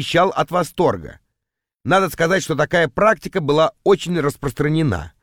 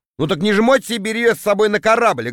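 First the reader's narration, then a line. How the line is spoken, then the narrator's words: Snapping retort. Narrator (Russian): огрызнулся я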